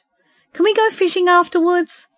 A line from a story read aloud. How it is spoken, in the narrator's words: Jake begged